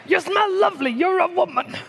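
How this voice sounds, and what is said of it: Imitates an old Italian-American man. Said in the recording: “I do Al Pacino as well... I do all those old Italian guys.”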